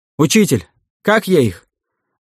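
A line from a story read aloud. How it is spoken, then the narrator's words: Proud exclamation. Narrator (Russian): с гордостью воскликнул Селерей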